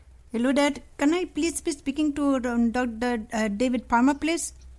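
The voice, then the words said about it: Put-on Indian accent. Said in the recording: “I was going to do it in an Indian accent”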